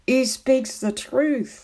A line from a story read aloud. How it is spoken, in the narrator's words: laughed one